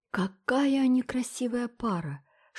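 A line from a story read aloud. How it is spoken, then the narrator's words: Excited whisper. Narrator (Russian): шепнула впечатлительная миссис Линд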